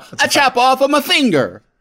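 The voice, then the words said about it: Fake Italian accent. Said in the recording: “he has a fake Italian accent”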